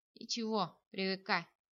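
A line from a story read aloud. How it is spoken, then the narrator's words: Chuckling. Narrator (Russian): хохотнул тот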